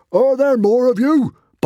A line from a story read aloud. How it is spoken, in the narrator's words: barked Norbert the Nutjob